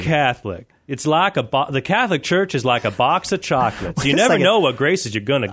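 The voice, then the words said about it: Morgan Freeman impression, Southern twang. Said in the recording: “I was doing Morgan Freeman ... has a little tiny bit of twang in it ... Southern accents”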